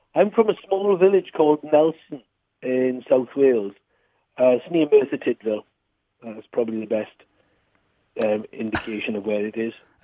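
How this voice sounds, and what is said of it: Welsh accent. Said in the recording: “your Welsh accent”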